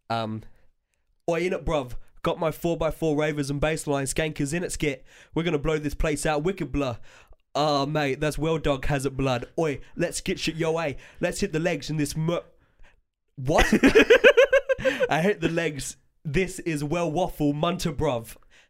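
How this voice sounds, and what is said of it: Put-on Chav English accent. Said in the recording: “there's characters with a Chav accent. I want you to do your best Chav accent”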